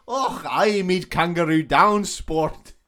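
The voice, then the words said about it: Poor mixed Scottish-Australian accent. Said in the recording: “I think it's supposed to be Scottish ... the actor, I'm pretty sure, is from Australia ... Is that a good impression? ... No, it's not.”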